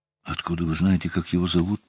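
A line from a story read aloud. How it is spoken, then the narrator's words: Whispered. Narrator (Russian): прошептала она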